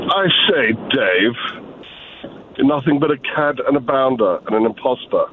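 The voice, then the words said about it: Bad put-on British accent. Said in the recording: “the accent of British ... Jesus, that's terrible.”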